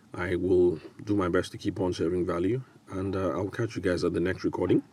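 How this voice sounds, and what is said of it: Hoarse, raspy voice with a cold. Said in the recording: “I have a bit of a cold ... coughing up and sounding all raspy”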